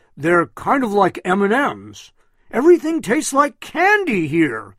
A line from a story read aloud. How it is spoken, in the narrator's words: shouted in pure joy